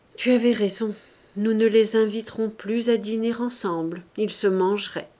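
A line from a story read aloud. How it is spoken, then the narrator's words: Heavy sigh. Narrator (French): Il dit avec un gros soupir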